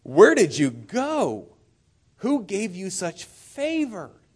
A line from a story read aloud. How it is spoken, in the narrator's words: she just exclaims